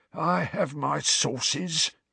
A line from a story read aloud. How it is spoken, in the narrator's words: said Filch, in a self-satisfied hiss